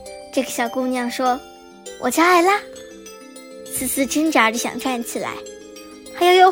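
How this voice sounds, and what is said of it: Usual voice. Nothing is said of it.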